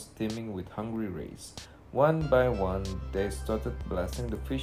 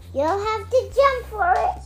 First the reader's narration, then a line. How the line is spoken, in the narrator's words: Sandy cried